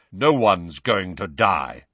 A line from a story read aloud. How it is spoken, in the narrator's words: said Kingsley Shacklebolt in his deep, calming voice